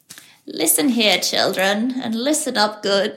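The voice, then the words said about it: Creepy old lady voice. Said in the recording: “in my creepy old lady voice.”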